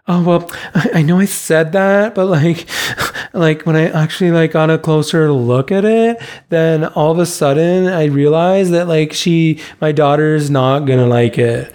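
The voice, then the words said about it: Imitates a customer's voice. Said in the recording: “That's a great impression.”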